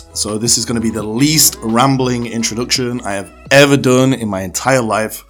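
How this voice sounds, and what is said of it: Strained, fading voice. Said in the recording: “As you can tell, I'm losing my voice,”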